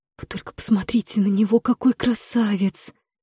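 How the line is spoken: Excited whisper. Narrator (Russian): восторженно прошептала Марлин, моя подруга и горничная ее высочества

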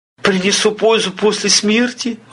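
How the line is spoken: Timid question. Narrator (Russian): робко спросил десятник

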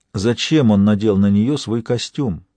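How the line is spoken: Plain. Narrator (Russian): спросил Гамаш

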